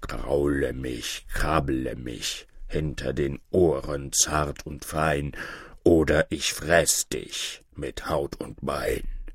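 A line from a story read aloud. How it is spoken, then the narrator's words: Growling bear. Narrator (German): der Bär wieder seinen rauen Kopf an des Mädchens Schoß und brummte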